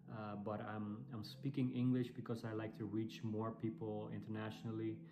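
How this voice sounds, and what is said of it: Dutch-accented English. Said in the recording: “as you might hear from my accent, I'm, I'm European. I'm from the Netherlands.”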